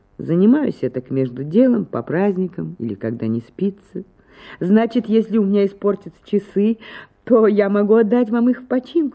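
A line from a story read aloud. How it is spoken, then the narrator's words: Laughing question. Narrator (Russian): спросила Анна Акимовна, смеясь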